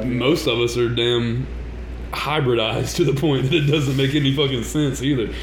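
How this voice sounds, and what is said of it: Southern US accent. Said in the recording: “Southern hospitality ... because of our accents”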